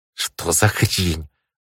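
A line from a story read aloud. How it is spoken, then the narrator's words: Hissing. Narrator (Russian): прошипел я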